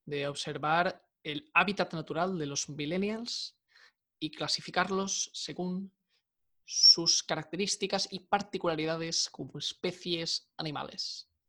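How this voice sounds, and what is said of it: Imitates another person's voice. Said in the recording (Spanish): “¿Qué tal mi imitación de Félix Rodríguez? ¿Bien?”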